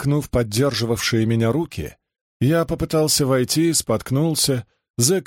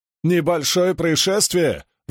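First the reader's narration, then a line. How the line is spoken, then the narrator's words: Howling. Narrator (Russian): взвыл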